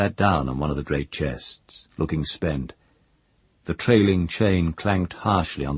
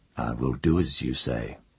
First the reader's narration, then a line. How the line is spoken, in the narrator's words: he said gently